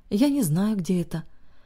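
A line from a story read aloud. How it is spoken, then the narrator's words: Very tired, effortful. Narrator (Russian): очень устало произнесла собеседница, как будто говорить ей стоило больших усилий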